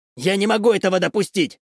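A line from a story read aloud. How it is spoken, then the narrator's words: Shout. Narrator (Russian): крикнул он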